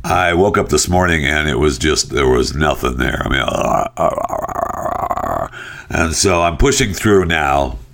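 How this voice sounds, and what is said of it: Damaged, nearly lost voice. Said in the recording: “my voice is still screwed up ... I just don't have a voice.”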